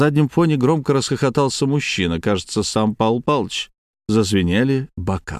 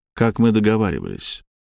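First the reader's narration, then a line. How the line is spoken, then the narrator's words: Soft. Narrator (Russian): мягко сказал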